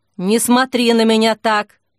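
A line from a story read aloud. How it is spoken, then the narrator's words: Muttered, turning away. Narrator (Russian): пробурчала, отворачиваясь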